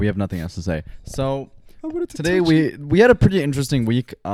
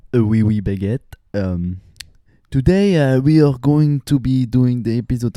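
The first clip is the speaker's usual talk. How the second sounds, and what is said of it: Put-on French accent. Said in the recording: “Do a French accent.”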